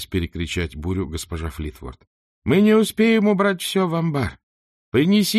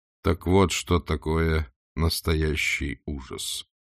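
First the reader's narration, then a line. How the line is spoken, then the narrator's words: Calm inner voice. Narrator (Russian): спокойно констатировал его внутренний голос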